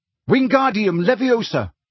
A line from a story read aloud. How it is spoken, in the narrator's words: he shouted